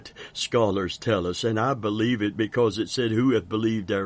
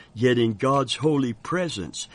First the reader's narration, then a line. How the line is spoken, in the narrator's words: he cried